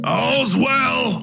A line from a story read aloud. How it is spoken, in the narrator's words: he shouted up